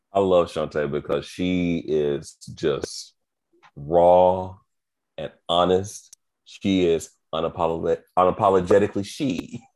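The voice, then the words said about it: Slurred, tired speech. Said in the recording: “I'm slurring my speech like I've been drinking, but I have not been drinking. Not yet. I'm just tired.”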